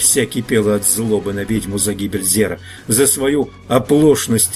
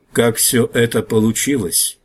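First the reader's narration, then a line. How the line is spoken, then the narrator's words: Old chief, hollow voice. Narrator (Russian): глухо спросил старый вождь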